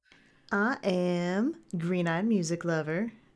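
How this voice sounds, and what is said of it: Put-on southern accent. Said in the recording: “with a southern accent for some reason this evening”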